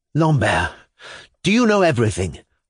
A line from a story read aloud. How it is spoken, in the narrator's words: I exclaimed with intense feeling